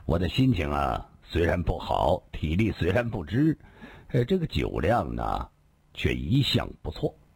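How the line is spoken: Faint smile. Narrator (Chinese): 李寻欢淡淡地笑了笑

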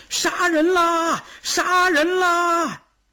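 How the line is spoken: Men shouting. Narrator (Chinese): 东边的几个男人喊

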